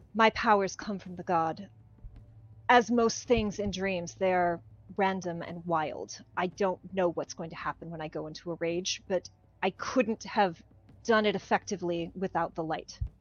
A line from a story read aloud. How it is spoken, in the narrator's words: Vassal sighs very heavily, as if explaining to a child, and says